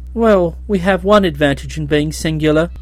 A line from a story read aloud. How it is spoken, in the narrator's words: said Nerl cheerfully